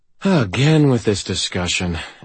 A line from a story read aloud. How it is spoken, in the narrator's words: Andy sighed